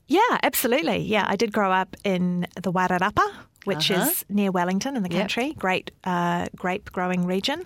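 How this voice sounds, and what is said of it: New Zealand accent. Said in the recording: “You're a Kiwi. ... could you tell by my accent? ... Just a little.”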